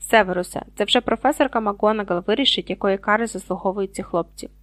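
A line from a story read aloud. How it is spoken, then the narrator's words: Calm interruption. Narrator (Ukrainian): спокійно обірвав його Дамблдор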